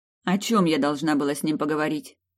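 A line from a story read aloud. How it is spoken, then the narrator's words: Grumbling. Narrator (Russian): проворчала я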